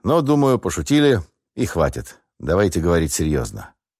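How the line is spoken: Calm. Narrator (Russian): спокойно ответил

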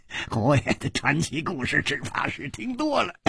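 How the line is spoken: Giggling. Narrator (Chinese): 另一个人咯咯地笑着说

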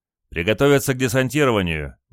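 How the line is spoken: Sudden shout. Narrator (Russian): неожиданно прокричал говорливый стрелок

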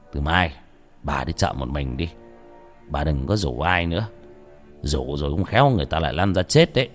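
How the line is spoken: Sighing. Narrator (Vietnamese): thầy Phong thở dài

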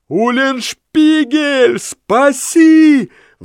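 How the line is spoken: Roar. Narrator (Russian): взревел Ламме

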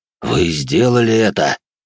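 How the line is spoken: General's shocked gasp. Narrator (Russian): потрясенно выдохнул генерал

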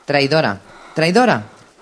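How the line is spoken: Shouting while trotting. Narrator (Spanish): gritaba mientras trotaba a su alrededor

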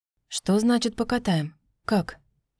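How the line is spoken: Whispered question. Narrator (Russian): шепотом спросил меня мужчина

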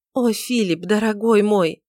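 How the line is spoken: Sobbing whispered exclamation. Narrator (Russian): воскликнула она всхлипывающим шепотом

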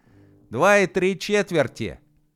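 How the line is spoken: Little man shouting. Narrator (Russian): выкрикнул человечек

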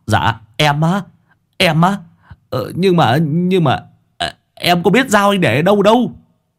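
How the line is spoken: Stammering. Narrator (Vietnamese): thằng Sáu Bưởi lại lắp bắp

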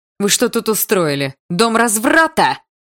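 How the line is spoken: Outraged shout. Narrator (Russian): заорала она, увидев настоящих в обнимку

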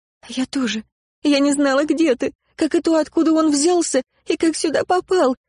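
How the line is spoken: Sobbing. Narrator (Russian): рыдала я

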